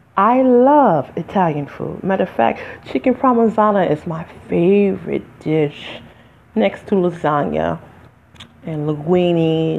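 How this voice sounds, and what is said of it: African American English dialect. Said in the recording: “I'm African American, by the way, if you can't tell by the dialect of my voice”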